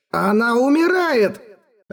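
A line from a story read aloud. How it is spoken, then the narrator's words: Furious desperate exclamation. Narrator (Russian): Вне себя от гнева и отчаяния воскликнул Эрагон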